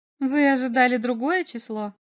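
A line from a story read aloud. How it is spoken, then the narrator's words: Mocking, curious female question. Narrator (Russian): спросила она насмешливо, с любопытством подняв брови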